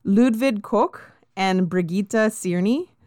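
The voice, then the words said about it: Names said in German-style pronunciation. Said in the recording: “I'm going to try to be as German as possible... That's pretty good. Yeah. You sound like you could speak German.”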